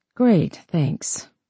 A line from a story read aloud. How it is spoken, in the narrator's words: Faith mumbled